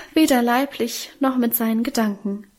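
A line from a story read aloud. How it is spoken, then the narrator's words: Emotional sigh. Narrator (German): seufzte unser Minchen gefühlvoll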